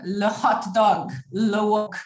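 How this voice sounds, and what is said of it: Put-on French accent. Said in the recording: “You just say it with a French accent, no?”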